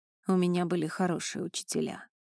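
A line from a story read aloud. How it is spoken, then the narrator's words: Plain. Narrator (Russian): сказал Элай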